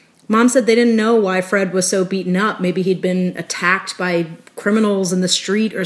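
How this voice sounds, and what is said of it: Usual voice. Nothing is said of it.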